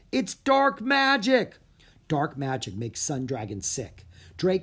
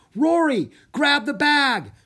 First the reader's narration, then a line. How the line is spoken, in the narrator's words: Drake yelled